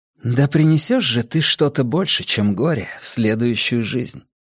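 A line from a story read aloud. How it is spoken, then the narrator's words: Muttered, young woman. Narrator (Russian): пробормотала девушка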